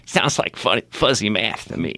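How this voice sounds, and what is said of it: Imitates another person's voice. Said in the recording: “my best here for an imitation of somebody ... George Bush”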